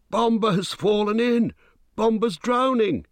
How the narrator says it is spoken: he cried

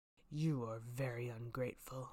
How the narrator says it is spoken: said the beast in a terrible voice

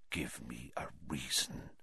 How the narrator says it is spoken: he whispered

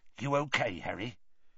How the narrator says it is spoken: Hagrid muttered

